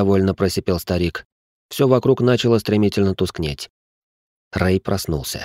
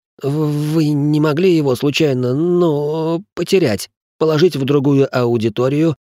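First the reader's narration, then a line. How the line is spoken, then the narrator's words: Stammering. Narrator (Russian): продолжил заикаться профессор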